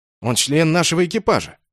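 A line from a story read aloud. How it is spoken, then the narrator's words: Indignant reply. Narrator (Russian): возмущенно ответил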